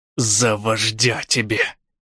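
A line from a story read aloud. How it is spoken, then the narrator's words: Through gritted teeth. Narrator (Russian): Сквозь зубы сказал побратим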